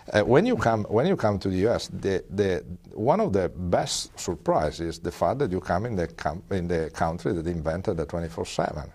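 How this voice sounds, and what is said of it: European-accented English. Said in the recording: “as an European, and I don't think there are doubts with my accent”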